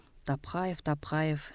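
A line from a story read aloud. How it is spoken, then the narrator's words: Old man grumbling. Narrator (Russian): ворчал старик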